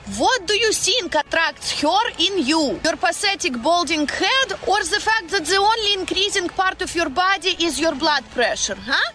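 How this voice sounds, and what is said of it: Russian accent with rolled R's. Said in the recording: “that accent ... What the hell that accent? She rolls every... sort of Slavic ... Russian? ... she's Russian. ... She just rolls Ukrainian. Every word. ... That is a Russian accent.”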